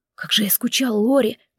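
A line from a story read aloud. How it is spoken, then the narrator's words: Whisper. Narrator (Russian): прошептал Джейсон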